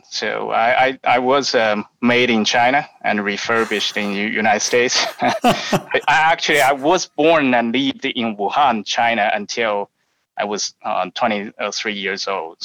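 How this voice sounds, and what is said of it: Chinese-accented English. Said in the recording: “I believe you can tell I have a Chinese accent.”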